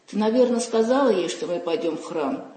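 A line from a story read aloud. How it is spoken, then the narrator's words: Plain question. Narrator (Russian): спросила я Валю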